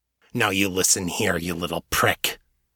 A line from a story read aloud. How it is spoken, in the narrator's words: growled, the words coming out fast and full of venom